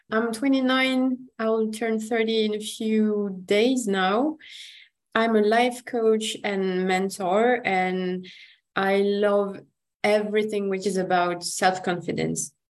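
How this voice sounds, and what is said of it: French accent. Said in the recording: “I'm French, if my accent doesn't say.”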